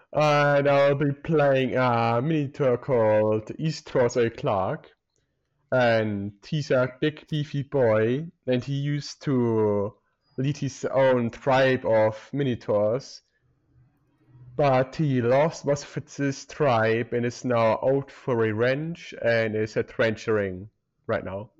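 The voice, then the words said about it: Put-on German accent. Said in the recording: “stop doing the German accent”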